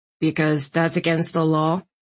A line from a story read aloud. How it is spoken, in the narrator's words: Landon replied dryly